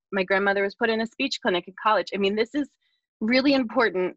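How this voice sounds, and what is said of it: Teary, emotional voice. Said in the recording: “getting teary”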